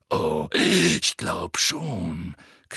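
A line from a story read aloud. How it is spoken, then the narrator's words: Growl. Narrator (German): knurrte Moody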